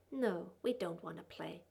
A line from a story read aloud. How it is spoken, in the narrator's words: he said quietly, tiny sneer in his voice